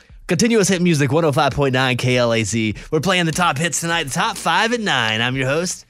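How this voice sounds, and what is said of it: Strained, exaggerated radio DJ voice. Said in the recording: “I can DJ the crap out of this stuff ... Except I'm losing my voice doing it”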